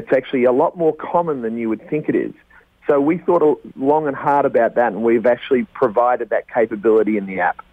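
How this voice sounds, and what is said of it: Speaks with a noticeable accent. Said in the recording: “Just with that accent alone, I know we're going to get at least another 1,000 listeners.”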